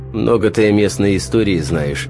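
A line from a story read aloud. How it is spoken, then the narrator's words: Snorting reply. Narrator (Russian): хмыкнул тот в ответ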